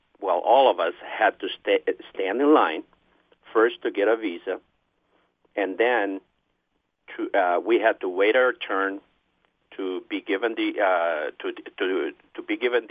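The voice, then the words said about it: Slight Peruvian Spanish accent. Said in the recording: “You have a slight accent, so I'm assuming that you are perhaps foreign born. ... I'm from Peru.”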